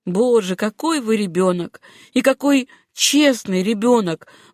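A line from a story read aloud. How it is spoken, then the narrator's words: Exclamation then laughter. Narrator (Russian): воскликнул он и расхохотался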